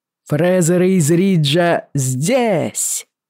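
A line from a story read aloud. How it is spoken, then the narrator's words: Roar. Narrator (Russian): взревел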